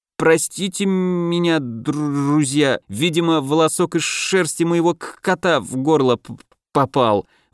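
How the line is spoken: Strained, heavy stuttering. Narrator (Russian): выдавил из себя Илья, так сильно заикаясь, что каждое слово давалось ему с трудом

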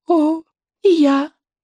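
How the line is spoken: Squeaky. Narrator (Russian): пропищала Буремуха

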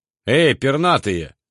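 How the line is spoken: Loud bark. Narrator (Russian): гаркнул я

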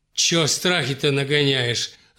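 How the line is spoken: Angry woman's retort. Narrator (Russian): зло бросила отцу Екатерина

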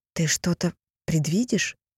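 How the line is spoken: Eager whisper. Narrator (Russian): жадно прошептала Дагни

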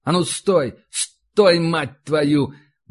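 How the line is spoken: Frightened shout. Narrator (Russian): выкрикнул Иванцов, чувствуя, как внутренне холодеет

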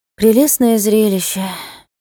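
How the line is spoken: Sighing. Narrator (Russian): вздохнула она

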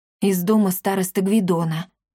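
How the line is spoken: Exhaled words. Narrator (Russian): выдохнул Триш

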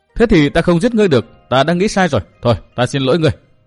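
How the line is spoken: Youth laughing loudly. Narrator (Vietnamese): Thiếu niên vội cười lớn

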